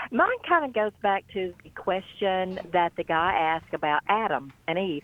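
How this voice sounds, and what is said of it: Louisiana accent. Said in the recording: “that awesome Louisiana accent”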